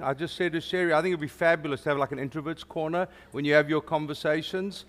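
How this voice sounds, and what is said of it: South African accent. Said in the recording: “If you don't understand my accent ... for those of you who don't get the South African thing”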